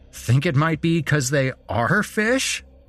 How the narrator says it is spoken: Chris laughed

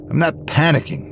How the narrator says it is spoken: Liz snapped

